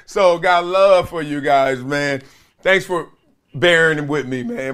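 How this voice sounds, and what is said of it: Hoarse, sniffly losing voice. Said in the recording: “The way I'm sounding is like Tony Montana over here. Because my voice, I'm losing my voice ... I got to sniffle it up.”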